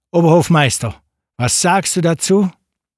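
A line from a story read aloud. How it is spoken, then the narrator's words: Called out. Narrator (German): Der Kalif rief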